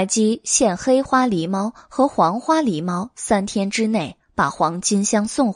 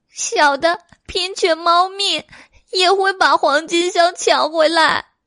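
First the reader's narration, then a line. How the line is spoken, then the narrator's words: Cat crying. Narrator (Chinese): 黄花狸猫哭道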